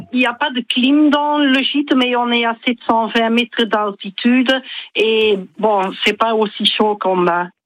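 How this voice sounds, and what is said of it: Slight Belgian French accent. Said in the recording (French): “Vous avez un petit accent, me semble-t-il, non? ... Belge. ... vous n'avez pas perdu l'accent”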